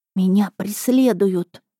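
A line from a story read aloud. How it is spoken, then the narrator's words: Strangled whisper. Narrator (Russian): сказала сдавленным шепотом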